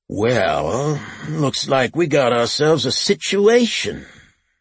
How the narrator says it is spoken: The sheriff noisily sighed, then said

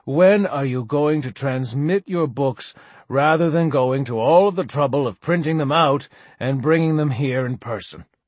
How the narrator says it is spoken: she sighed

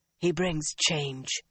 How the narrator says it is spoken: Milane whispered harshly

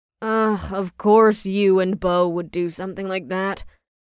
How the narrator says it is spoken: Ash groaned

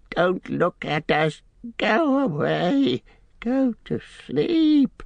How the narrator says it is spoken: he whimpered with his face to the ground

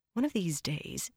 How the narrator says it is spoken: Egwene muttered

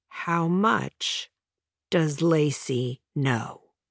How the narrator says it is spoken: He asked slowly

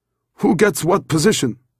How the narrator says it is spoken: Abraham grumbled

